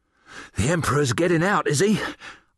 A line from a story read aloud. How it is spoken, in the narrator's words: panted